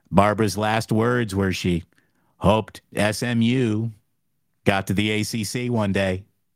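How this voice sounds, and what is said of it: Imitates another person's voice. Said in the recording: “This is a really bad Dana Carvey version of a bad George Bush impression.”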